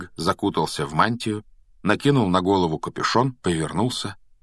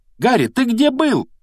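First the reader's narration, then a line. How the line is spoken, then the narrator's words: Two voices shrieking. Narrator (Russian): завизжала Гермиона вместе с Роном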